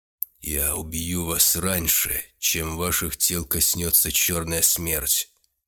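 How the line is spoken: Menacing executioner. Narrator (Russian): грозно произнес палач

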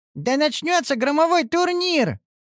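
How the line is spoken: Squeaky little princess. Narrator (Russian): пискнула принцесска

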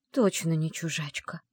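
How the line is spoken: Surprised whisper. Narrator (Russian): удивленно прошептала она

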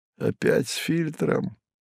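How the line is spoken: Petulant grumble. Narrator (Russian): Чадо капризно буркнуло

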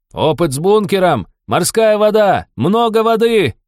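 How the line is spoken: Big man shouting. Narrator (Russian): прокричал здоровяк

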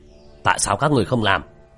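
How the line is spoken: Middle-aged man's hasty shout. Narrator (Vietnamese): Người đàn ông trung niên vội vàng quát

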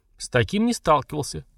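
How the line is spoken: Short laugh. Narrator (Russian): хохотнул Дварх-адмирал

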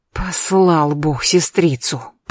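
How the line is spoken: Hiss. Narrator (Russian): прошипела Агатка

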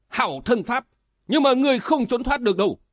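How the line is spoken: Shout. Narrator (Vietnamese): Ngũ Phương sứ giả la lên

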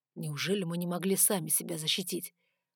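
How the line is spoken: Grumbled. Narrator (Russian): проворчал Риган

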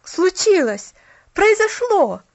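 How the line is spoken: Excited exclamation. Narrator (Russian): воскликнул парнишка

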